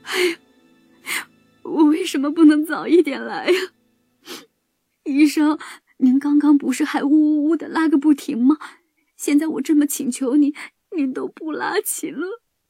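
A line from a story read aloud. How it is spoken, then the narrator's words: Mother wailing. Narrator (Chinese): 田鼠妈妈大哭起来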